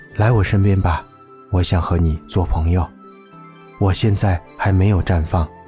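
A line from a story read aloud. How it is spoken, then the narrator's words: Gentle. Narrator (Chinese): 昙花对它温柔地说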